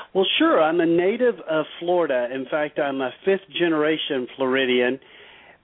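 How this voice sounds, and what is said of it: Southern US accent. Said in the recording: “I'm from the northern part of the state, which is very southern, if you can't tell by my accent.”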